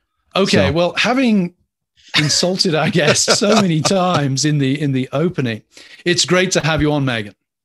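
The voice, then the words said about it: English accent. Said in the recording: “there are some things that even the English accent can't quite fix”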